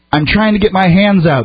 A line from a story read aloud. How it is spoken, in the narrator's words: explained, desperately trying to make his tortured, traumatized body obey his will